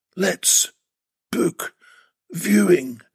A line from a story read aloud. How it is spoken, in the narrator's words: Still breathing heavily, managed to gasp